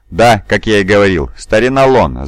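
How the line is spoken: Laughing. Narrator (Russian): засмеялся Тим, один из пашей Пия

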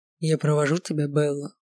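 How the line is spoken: Low drawling voice. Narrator (Russian): сказал он своим низким тягучим голосом

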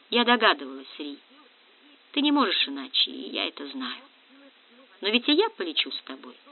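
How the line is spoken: Soft sighing reply. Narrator (Russian): Он чувствовал улыбку и, тихонько вздохнув, ответила

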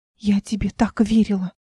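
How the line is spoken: Whisper. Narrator (Russian): прошептала Мира

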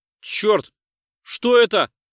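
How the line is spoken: Shouted. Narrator (Russian): прокричал Эндрюс

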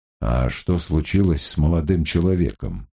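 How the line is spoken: Plain. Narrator (Russian): спросил Гамаш

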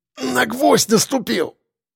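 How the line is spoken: Breathless exhale. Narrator (Russian): выдохнул Лисицын

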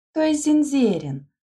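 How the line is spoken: Laughing. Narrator (Russian): засмеялась Лида

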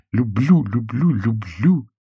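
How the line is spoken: Repeating, choking on sobs. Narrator (Russian): твердила она, захлебываясь от рыданий

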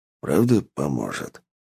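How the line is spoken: Whispered question. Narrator (Russian): спросил Рад шепотом

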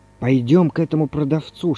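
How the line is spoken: Whisper. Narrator (Russian): шепнул Иван Иванович

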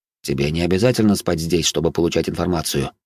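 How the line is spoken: Plain. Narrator (Russian): ответил я

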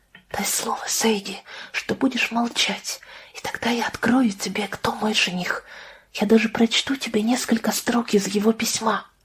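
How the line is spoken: Quieter, almost whisper. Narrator (Russian): Потом тише, почти шепотом, Лидия ей сказала

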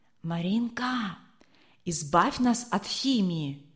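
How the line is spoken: Boy whispering. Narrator (Russian): шепнул высокий мальчик

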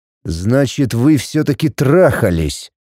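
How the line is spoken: Growling. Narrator (Russian): прорычал он мне в лицо

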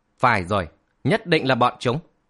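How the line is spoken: Trembling with rage, blurting. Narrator (Vietnamese): toàn thân chàng run bắn lên vì tức giận, buột miệng la

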